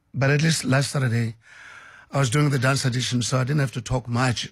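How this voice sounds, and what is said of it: Voice strained from the flu. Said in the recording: “as you can tell from my voice that I'm still struggling to shake off the flu ... I hope the voice won't give up”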